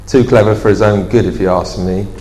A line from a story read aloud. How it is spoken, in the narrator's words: muttered Dan